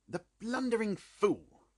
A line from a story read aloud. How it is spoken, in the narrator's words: Holmes said bitterly